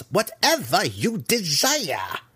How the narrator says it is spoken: Malice snarled again

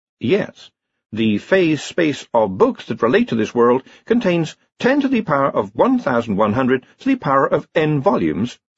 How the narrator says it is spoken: said Hex

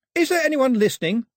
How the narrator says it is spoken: she yelled

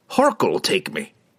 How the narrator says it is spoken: blurted

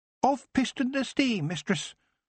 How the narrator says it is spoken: the goblin said cheerfully

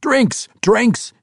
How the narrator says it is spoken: he yelled to the attendants

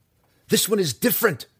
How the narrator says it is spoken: cried, leaping up

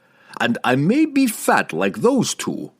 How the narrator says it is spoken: Pook chuckled

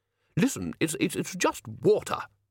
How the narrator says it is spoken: snapped Ridcully

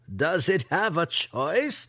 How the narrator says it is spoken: Ben Ray laughed

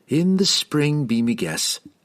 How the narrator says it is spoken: said Caterbury

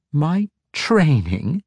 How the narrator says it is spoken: Ivanel asked with an incredulous laugh

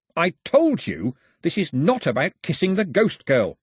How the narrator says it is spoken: snapped Mao

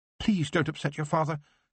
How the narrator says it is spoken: his mother pleaded

